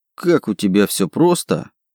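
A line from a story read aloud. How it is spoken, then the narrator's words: Snorting. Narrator (Russian): хмыкнул я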